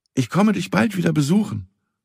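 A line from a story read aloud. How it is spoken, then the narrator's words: Farewell call. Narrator (German): rief zum Abschied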